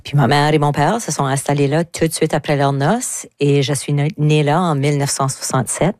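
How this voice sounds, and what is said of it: Southeast New Brunswick Acadian French accent. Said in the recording (French): “j'ai pas habité le sud-est du Nouveau-Brunswick, comme que tout le monde peut le constater par mon accent”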